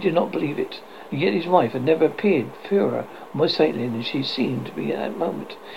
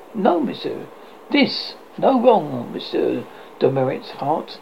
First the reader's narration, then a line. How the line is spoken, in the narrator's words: calmly and replied, quite simply